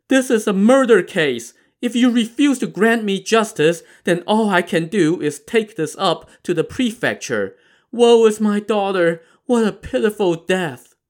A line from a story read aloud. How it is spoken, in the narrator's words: Yan started moaning and crying and said to the magistrate in between sobs